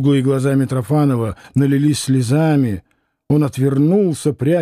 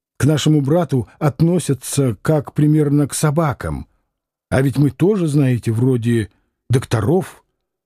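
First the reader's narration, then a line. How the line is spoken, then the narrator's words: Quiet reproachful exclamation. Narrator (Russian): негромко, но с упреком воскликнул он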